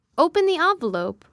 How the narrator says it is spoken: urged his father impatiently

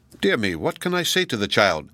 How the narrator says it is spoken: cried Zenobia in a tone of humorous vexation

